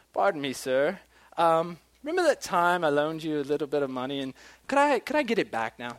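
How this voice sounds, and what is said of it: Deliberately bad put-on accent. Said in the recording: “That's a horrible accent, I know.”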